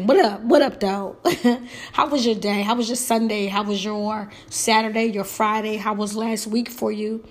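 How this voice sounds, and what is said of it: Sick, under-the-weather voice. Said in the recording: “As you can tell from my voice, I'm a little under the weather”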